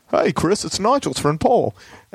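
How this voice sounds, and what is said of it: Imitates another person's voice. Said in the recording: “my Paul McCartney impersonation”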